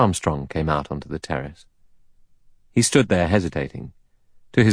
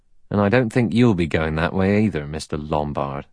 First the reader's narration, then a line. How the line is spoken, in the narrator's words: He added dryly